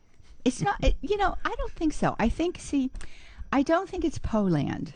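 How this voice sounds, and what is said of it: Pittsburgh accent. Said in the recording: “I cannot completely ditch my Pittsburgh accent.”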